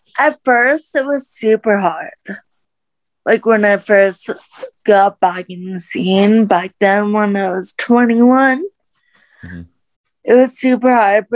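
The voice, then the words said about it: Brazilian or Valley girl accent. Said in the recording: “ask me like where my accent is from ... I'm Brazilian and my dad's from Brazil. So I'm like, oh, maybe it's like Brazilian. I don't know. Maybe it's a Cali girl, Valley girl thing.”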